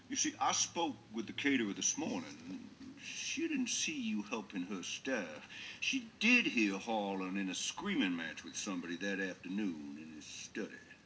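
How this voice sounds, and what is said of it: Drawling accent like Foghorn Leghorn. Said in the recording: “sounds like Foghorn Leghorn or somebody like that ... Daniel Craig is really into this role. I mean, his accent”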